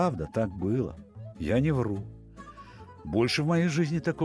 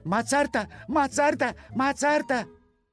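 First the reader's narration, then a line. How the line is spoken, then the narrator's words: Group shouting. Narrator (Russian): Они кричали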